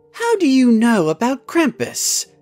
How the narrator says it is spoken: asked Cherry in a surprised voice

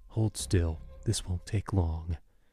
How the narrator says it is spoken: The one who held me whispered in my ear

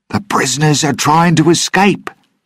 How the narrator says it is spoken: he screamed

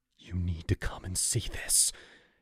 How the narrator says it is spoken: he gasped, fear twisting his face

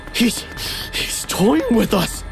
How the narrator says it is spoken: I panted

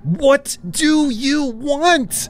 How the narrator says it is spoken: screamed

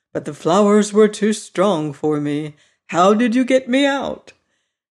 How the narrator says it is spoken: he said, sitting down and yawning

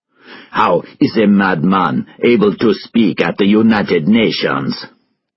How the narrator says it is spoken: He asked angrily

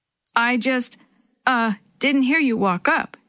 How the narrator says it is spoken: Dee Dee stuttered

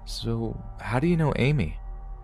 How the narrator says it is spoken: he responded in his shaky and unflattering voice, he said

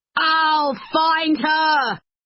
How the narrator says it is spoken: he shouted

